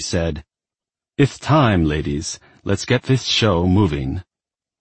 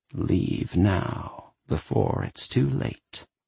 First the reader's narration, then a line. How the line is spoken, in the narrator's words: someone whispered